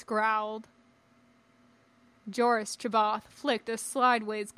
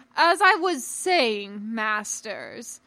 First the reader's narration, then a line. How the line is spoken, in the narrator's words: he boomed out